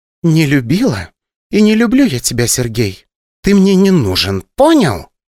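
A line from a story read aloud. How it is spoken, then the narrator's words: Venomous, snakelike hiss. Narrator (Russian): Злобно прошипела вещевая, будто вселилась в нее какая-то змея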